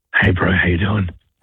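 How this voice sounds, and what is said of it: Whispering. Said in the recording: “why are you whispering? ... I just got to keep my voice down”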